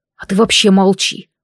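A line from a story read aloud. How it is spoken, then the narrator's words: Irritated, through gritted teeth. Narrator (Russian): процедил Рейджин с раздражением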